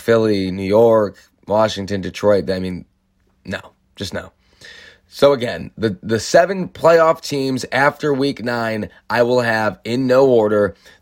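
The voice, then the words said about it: Strained, hoarse throat. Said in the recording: “I'm going to give my voice a break. You hear the Victory Monday throat going on in here. Got to recover a little bit from that.”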